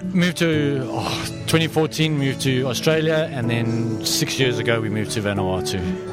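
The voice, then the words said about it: South African accent. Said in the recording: “you've got a bit of an accent, so you're not from Vanuatu and you're not Australian either ... born and bred South African”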